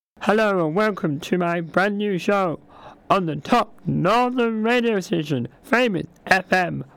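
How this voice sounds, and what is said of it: Strained, hoarse, fading voice. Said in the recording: “I'm sadly losing my voice. So my voice may be affected”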